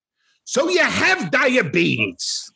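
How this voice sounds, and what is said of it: Imitates another person's voice. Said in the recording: “Here's my Richard Kind impression.”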